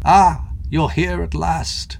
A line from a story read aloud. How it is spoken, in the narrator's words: the figure croaked in a cracked voice which seemed to have broken from under use